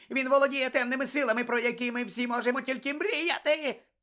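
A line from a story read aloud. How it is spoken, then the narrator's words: Shrill shriek. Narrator (Ukrainian): пронизливо заверещав Петтігрю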